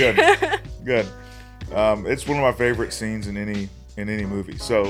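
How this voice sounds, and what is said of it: Usual voice. Nothing is said of it.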